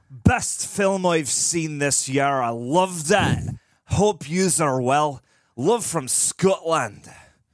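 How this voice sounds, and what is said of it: Put-on Scottish accent. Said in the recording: “read that in your best Scottish accent”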